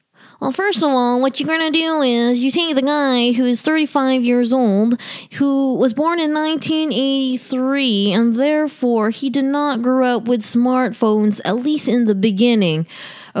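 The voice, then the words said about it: Nerdy character voice. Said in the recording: “You want to hear my impression of being a nerd?... I'm not going to do that the whole time because I think I will be in pain”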